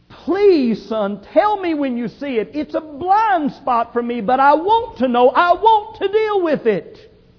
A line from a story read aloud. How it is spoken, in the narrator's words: the dad humbly cried out